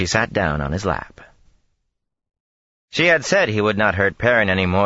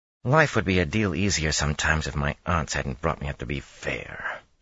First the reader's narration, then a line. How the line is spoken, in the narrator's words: she muttered